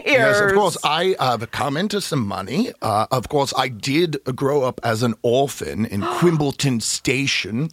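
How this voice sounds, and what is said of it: Put-on English accent. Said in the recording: “it was just in England. ... Are from England? ... My accent gave it away. ... I thought maybe you just were sick or something.”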